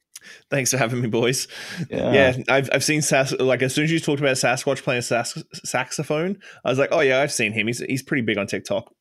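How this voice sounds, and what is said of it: Australian accent. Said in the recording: “Your Canadian accent doesn't seem right... I'm a transplant from Australia... my accent won't wane regardless of how long I'm here”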